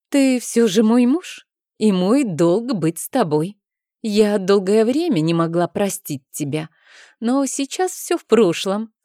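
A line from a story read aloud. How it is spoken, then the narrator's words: Young woman's soft, enveloping voice. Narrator (Russian): сказала молодая женщина обволакивающим голосом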